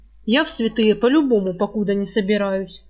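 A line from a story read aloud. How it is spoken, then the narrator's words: Angry thief. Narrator (Russian): зло сказал вор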